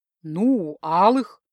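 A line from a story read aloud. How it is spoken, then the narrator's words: Mocking snort. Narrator (Russian): хмыкнул стальной провокатор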